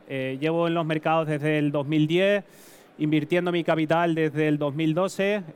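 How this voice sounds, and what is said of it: Canarian Spanish accent. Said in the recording (Spanish): “Como pueden apreciar, pues bueno, mi acento es canario, soy de Tenerife”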